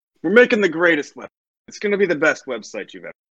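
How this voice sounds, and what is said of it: Imitates another person's voice, Brooklyn accent. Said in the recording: “my Trump impression is ... it's a Brooklyn accent, Donald Trump verbiage”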